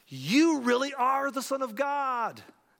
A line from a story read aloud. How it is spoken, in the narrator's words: they exclaimed